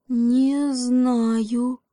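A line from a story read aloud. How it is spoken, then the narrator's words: Frightened quiet whisper. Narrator (Russian): со страха этого тихо прошептал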